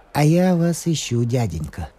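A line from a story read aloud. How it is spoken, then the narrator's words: Plain. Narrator (Russian): сказал он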